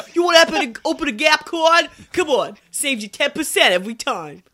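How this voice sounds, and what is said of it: Put-on New York accent. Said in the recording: “That's my New York accent.”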